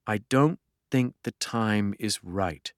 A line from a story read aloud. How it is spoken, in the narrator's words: she replied slowly